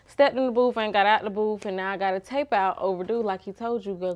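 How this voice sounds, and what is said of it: Atlanta accent. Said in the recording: “I already hear the accent. I already know you're from Atlanta.”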